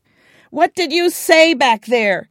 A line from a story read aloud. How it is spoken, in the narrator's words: he shouted